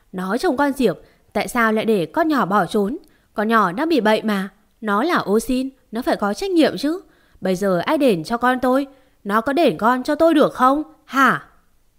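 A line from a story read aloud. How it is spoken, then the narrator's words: Struggling, screaming. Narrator (Vietnamese): Mẹ Mợ Diệp vùng vẫy gào lên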